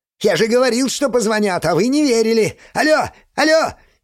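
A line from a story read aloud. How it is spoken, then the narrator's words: Shrill shouting. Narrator (Russian): Визгливо кричит Андрей Тимофеевич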